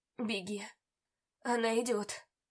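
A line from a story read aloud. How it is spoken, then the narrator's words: Hoarse rasp. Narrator (Russian): Прохрипел он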